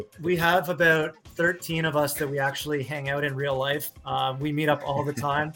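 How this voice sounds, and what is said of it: Canadian accent. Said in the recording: “It's a Canadian accent ... if I say Cardano, it kind of sounds a little funny ... my Canadian accent”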